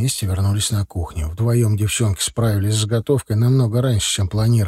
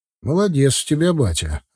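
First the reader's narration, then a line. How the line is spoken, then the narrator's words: Laughing. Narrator (Russian): рассмеялся я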